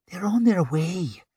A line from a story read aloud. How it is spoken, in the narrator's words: she hissed from the corner of her mouth